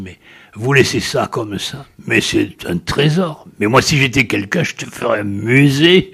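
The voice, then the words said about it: Imitated gravelly regional accent. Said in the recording (French): “J'essaie de refaire son accent parce qu'il l'a dit à sa façon rocailleuse.”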